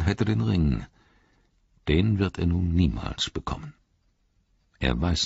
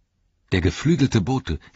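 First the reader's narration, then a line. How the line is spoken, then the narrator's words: Called out. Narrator (German): rief Legolas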